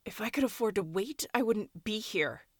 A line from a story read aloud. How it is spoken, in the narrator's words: snapped